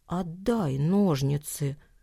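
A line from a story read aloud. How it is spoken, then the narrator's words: Quiet request. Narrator (Russian): тихо попросил Никита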